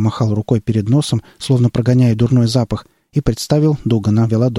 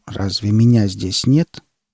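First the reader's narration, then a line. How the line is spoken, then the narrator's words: Quiet question. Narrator (Russian): тихо спросил Веладор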